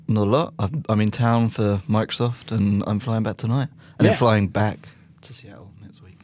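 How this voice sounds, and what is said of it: British (London) accent. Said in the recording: “is generally in London. ... Hence the accent.”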